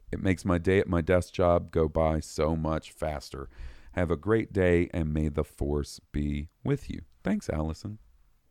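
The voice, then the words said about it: Hoarse voice. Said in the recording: “I'm getting a little hoarse here.”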